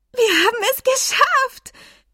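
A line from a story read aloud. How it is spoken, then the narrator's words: Shrieking group. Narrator (German): kreischten Flame, Marina und Flora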